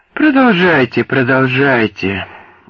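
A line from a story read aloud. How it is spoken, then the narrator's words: Weary. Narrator (Russian): устало сказал Спенглер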